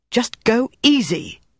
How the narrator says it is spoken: she snapped at him

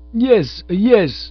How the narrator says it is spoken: moaned the poor man

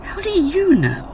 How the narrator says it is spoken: the latter gasped

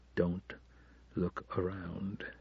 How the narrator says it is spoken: begged under his breath

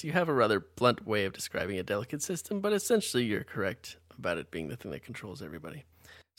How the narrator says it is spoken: more calmly says

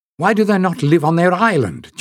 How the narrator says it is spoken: Jasmine demanded fiercely, not troubling to lower her voice

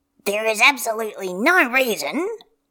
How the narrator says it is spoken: he mutters

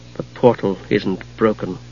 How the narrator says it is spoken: Palin said to himself softly

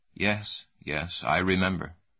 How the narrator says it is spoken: The old man said

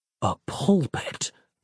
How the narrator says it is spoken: Nick muttered to himself

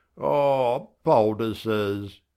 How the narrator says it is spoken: I groans

